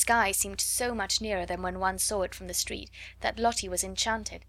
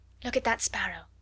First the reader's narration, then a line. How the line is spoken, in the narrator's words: whispered Sarah